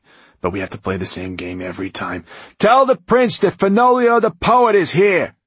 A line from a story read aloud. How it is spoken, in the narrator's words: he said, raising his voice